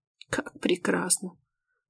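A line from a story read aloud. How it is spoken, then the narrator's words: Hoarse. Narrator (Russian): хрипит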